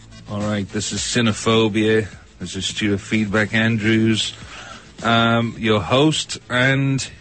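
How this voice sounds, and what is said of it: Liverpool Scouse accent. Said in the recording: “my Liverpudlian accent ... such a lovely Scouse accent”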